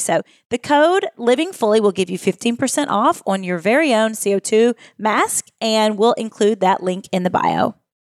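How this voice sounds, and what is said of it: Kentucky Southern accent. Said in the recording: “your accent is so calming for me. I was raised in Southern Indiana ... I probably have some of that mixed into my accent ... Kentucky's accent is like a little bit of Southern, a little bit of like redneck, and a little bit of Southern Indiana and Illinois”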